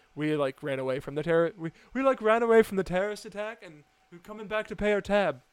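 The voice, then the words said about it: Mediocre put-on British accent. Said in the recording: “that was like a 6 out of 10 accent. ... I'm impressed not because it was good, but it was better than I thought it was going to be ... I should say the sentence in a British accent”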